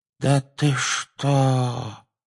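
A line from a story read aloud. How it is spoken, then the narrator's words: Weak voice. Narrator (Russian): произнес наземникус слабым голосом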